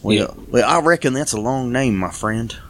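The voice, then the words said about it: Weird attempt at Western accent. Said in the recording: “my weird attempt at a Western accent”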